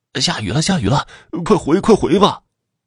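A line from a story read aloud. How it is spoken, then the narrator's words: Hateful cries and weeping. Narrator (Chinese): 伴随着恨声、哭声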